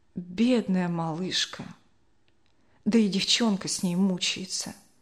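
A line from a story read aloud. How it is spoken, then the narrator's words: Quiet old woman's lament. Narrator (Russian): бабушка Ксения тихо запричитала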